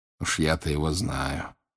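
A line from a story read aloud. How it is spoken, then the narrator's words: Quiet. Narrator (Russian): тихо сказал он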